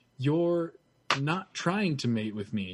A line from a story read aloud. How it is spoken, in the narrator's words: she said aloud, speaking slowly as though even she wasn't sure of what she was saying